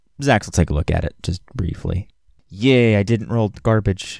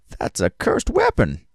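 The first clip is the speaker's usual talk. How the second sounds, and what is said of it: Old man character voice. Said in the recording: “He says in his old man voice,”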